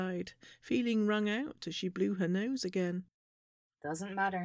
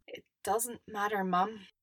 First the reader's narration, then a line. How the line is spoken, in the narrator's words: Mandy said, choking